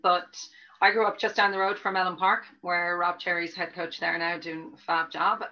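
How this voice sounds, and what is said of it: Dublin Irish accent. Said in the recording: “I grew up in Dublin, which I hope you can tell from the accent, it's not completely Cork yet”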